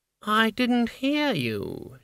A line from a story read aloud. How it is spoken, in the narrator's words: she purred